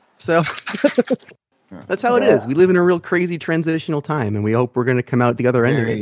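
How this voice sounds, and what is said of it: Big announcer-style radio voice. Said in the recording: “I'm putting on my big radio voice”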